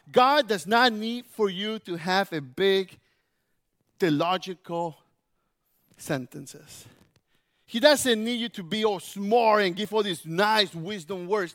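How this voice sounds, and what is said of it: Spanish-influenced English accent. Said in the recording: “God listens to me with my accent and in Spanish and in English and Spanglish.”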